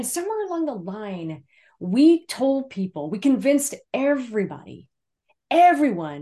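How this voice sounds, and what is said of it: Usual voice. Nothing is said of it.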